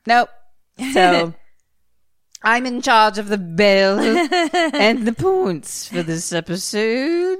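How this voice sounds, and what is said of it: Put-on British accent. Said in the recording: “your British accent is so good ... It sounds really good”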